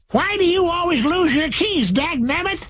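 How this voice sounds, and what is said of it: Old-time prospector character voice. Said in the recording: “talk like a prospector”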